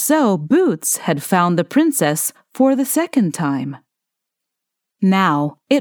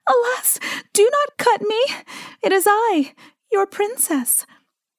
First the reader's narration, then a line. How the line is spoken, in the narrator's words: Then the loaf cried aloud in a woeful voice